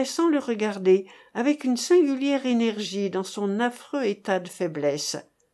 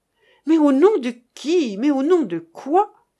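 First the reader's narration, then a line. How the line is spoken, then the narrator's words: Exclaimed. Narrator (French): s'écria-t-il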